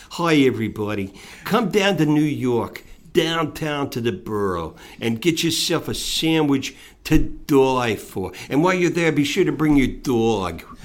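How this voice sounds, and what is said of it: Put-on New York accent. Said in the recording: “This is a New York accident. This accent”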